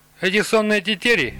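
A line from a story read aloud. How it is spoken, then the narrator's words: Young man scoffing. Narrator (Russian): юноша снова хмыкнул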